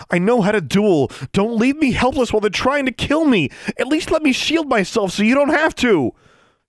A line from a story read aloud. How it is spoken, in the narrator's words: Alexandra pleaded with Tsotsi